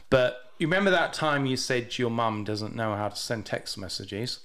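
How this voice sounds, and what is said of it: British accent. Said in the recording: “your goofy British accent ... I've got a funny accent”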